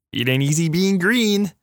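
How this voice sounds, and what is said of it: Kermit the Frog voice. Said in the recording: “that was your Patrick Mahomes impersonation ... Kermit”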